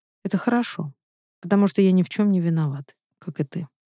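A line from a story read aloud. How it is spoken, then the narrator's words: Calm reply. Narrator (Russian): спокойно отвечает Олег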